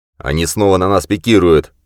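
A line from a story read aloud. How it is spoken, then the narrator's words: Shouted. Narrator (Russian): прокричал Мэтт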